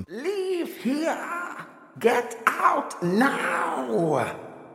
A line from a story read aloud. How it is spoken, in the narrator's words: lean in and scream